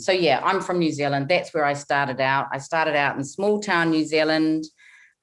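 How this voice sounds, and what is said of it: International-sounding New Zealand accent. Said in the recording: “beautiful accent ... I don't have a Kiwi accent anymore, but they also don't think I sound English ... you sound really international ... most people can pick up that I'm either New Zealand or Australian”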